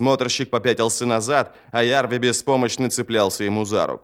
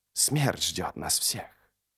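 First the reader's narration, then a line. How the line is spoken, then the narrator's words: Injured guard whimpering. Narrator (Russian): Охранник с порезанными ногами хныкал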